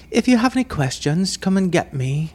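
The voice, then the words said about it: Poorly imitated English accent. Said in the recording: “she was English. So I'm going to butcher the accent ... Scottish. ... Cockney.”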